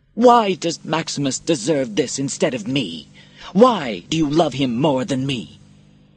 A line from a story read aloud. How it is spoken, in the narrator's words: His voice grew louder